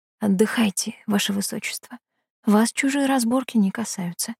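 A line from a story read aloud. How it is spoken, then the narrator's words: Whispered wish. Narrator (Russian): пожелала я ей шепотом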